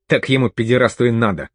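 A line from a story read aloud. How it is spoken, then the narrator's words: Angry spat remark. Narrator (Russian): зло сплюнул Осин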